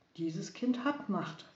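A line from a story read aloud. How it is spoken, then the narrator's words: Plain. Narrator (German): sagte die Frau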